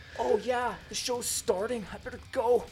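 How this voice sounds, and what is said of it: Imitates another person's voice. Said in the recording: “Doing Lars... amazing impersonation”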